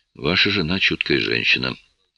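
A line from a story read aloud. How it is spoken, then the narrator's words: Hoarse sleepy remark. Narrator (Russian): все еще хриплым со сна голосом заметил я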